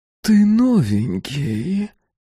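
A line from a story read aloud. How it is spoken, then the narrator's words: Sensual voice. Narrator (Russian): сказала она чувственным голосом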